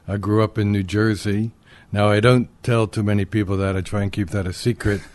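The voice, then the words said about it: New York accent. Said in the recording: “I have the Brooklyn accent, the New York accent.”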